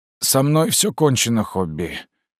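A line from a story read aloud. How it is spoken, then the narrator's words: Hoarse wheeze. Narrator (Russian): прохрипел О'Нейл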